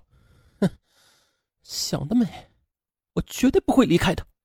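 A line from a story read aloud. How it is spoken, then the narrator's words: Furious, through gritted teeth. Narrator (Chinese): 兰香气得咬牙切齿地说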